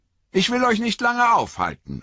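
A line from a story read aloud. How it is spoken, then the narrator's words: Calling out. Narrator (German): rief er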